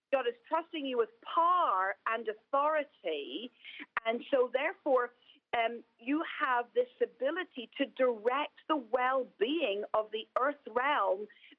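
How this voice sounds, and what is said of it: Irish accent. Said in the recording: “I say that with an Irish accent... in the Irish, we just say par”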